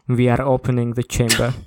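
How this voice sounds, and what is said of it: Put-on vampire-like Russian accent. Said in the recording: “a funny Russian accent ... that's not a Russian accent. That's a vampire accent.”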